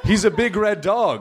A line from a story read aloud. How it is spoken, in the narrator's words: screamed another